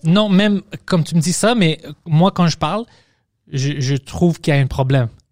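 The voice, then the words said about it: Foreign accent in French. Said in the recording (French): “Oui, tu as un accent, mais on a tous un accent.”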